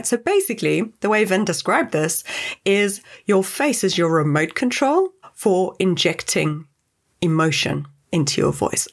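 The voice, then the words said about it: Animated, smiling voice. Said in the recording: “I am very animated. My hands are going, my face is going, I'm smiling. Can you hear it in my voice that I'm smiling, right?”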